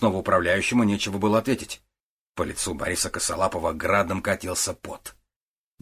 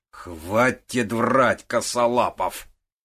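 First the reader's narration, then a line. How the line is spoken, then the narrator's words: Menacing declaration. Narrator (Russian): грозно заявил Кричко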